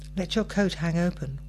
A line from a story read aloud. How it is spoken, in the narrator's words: Wiggy wheezed